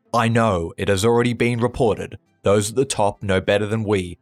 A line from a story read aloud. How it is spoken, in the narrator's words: barks down the line